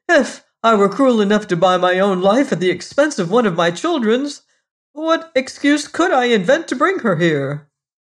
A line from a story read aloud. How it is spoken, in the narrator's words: cried the merchant